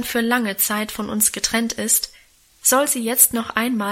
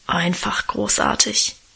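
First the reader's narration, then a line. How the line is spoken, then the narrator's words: Reverent low mumble. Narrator (German): brummelte Guste andächtig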